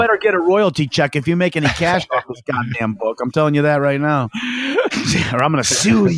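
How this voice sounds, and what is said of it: Usual voice. Nothing is said of it.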